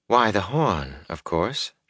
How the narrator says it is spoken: she said calmly

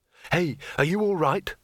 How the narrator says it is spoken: said Rincewind urgently

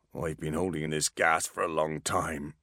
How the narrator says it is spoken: replied the dwarf through clenched teeth

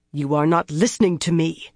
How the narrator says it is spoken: she said harshly

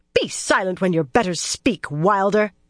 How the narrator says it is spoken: Galena snapped

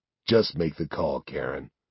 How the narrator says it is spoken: he sighs

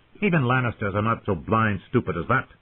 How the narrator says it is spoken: Sir Mark Piper snapped

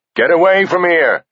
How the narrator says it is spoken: he shouted at the diggers

